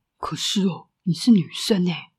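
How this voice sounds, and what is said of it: Boy speaking softly. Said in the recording (Chinese): “一个男孩小声的说”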